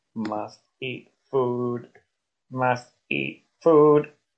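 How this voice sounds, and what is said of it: Robotic Dalek-like monotone voice. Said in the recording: “I sound like a Dalek. I sound like a Dalek, don't I?”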